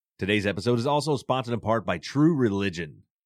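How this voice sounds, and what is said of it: Announcer-style radio voice. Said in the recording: “Did you guys hear that radio voice?”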